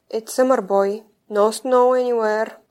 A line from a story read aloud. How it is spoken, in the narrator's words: the innkeeper snorted